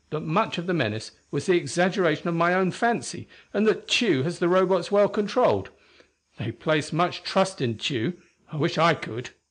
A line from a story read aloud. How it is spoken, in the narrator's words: Tina said indignantly